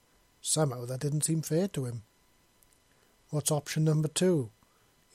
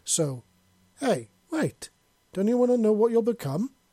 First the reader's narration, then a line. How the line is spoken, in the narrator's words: Pyre exclaimed in surprise